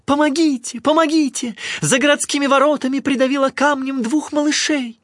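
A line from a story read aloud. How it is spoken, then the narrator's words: Woman shouting. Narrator (Russian): какая-то женщина закричала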